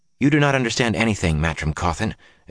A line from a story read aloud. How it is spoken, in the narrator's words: Egwene said in a tight voice